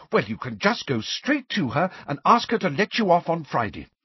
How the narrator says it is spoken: said Angelina fiercely

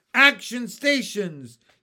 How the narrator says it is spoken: James shouted

